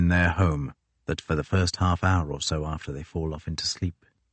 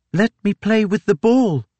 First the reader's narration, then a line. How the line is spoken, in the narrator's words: the daughter cried, waking the old man